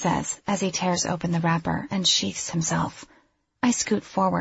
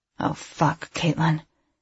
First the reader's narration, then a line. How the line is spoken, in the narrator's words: he says through gritted teeth